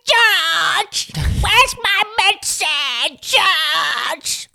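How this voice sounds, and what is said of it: Grandma character voice. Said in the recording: “I have to do the voice of the grandma like this”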